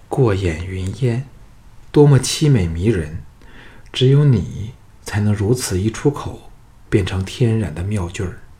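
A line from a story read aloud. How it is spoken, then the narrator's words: Sighing. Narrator (Chinese): 再叹道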